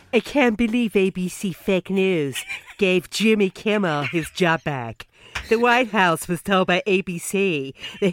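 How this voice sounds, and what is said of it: Donald Trump impression. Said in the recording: “do you want me to read it in the style of Trump? ... I'm not very good at accents”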